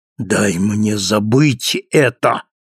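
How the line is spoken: Angry. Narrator (Russian): сказал химик, сердито

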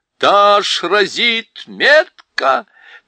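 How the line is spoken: Shouting. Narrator (Russian): Он крикнул

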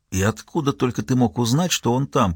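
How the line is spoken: Whispering. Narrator (Russian): прошептал Ельм

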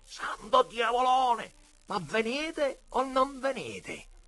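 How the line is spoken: Shouting from another room. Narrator (Italian): Mauro gridava dalla sala da pranzo

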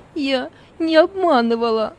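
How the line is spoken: Tearful. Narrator (Russian): Сквозь слезы проговорила Зора

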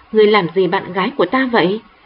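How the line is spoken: Loud scolding. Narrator (Vietnamese): tên bạn trai mập mạp lớn tiếng mắng

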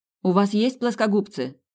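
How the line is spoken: Shout across a room. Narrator (Russian): крикнула она в другой конец помещения

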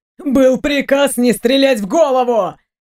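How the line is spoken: Shout. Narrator (Russian): Прокричал Ник

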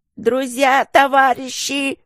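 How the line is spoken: Strangled yell. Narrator (Russian): сдавленно завопила спасительница

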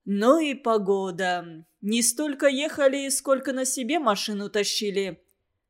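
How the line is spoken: Deep puffing bass. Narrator (Russian): Раскрасневшись от чая и отдуваясь при каждом глотке, пробасил один из спутников, должно быть, шофер

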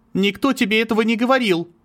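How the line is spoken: Nearly shouting. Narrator (Russian): Почти выкрикнула

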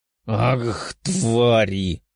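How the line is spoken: Young man growling. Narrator (Russian): прорычал один из парней

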